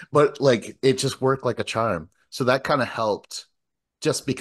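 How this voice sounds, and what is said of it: Usual voice. Nothing is said of it.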